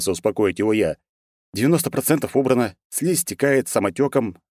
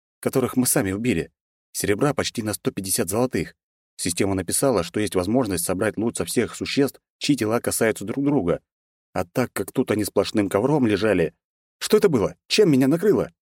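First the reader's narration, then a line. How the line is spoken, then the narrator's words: Calm voice. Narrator (Russian): спокойным голосом произнес брат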